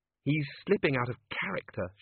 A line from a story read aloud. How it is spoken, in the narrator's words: she muttered